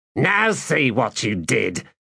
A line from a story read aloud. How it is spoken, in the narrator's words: snapped Recanto